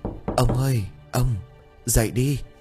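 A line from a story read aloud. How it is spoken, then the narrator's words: Frightened trembling old woman. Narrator (Vietnamese): Bà bắt đầu sợ hãi, tay chân run rẩy, miệng của bà méo mó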